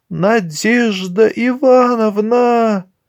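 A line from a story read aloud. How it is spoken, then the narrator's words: Frightened muffled trembling call. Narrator (Russian): Оксана от страха дрожащим голосом глухо позвала хозяйку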